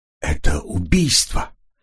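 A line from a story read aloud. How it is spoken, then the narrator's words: Choked voice. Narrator (Russian): произнес он сдавленным голосом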